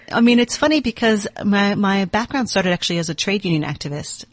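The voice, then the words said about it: American accent. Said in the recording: “You can tell I've got a U.S. accent.”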